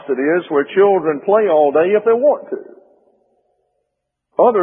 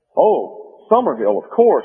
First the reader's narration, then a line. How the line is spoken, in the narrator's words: replied Jack